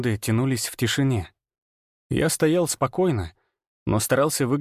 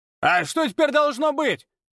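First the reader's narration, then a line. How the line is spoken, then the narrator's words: Shout from crowd. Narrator (Russian): выкрикнул кто-то из толпы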